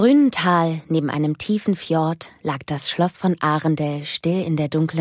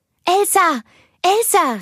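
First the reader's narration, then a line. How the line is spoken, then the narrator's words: Shouted. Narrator (German): rief sie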